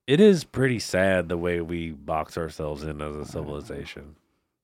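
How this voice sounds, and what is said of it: Stuffy, congested nasal voice. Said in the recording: “I sound like an idiot, though, because my dang nose is all stuffy.”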